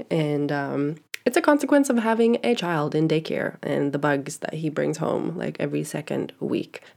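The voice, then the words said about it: Congested, stuffy-nosed voice. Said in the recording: “my voice sounds a little bit different. It is because I have a really congested nose. I'm feeling snotty.”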